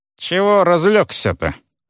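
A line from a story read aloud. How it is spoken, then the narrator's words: Mocking voice. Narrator (Russian): насмешливо изрек голос снова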